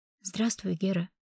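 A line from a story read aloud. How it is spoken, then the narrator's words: Quiet. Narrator (Russian): негромко сказала грачу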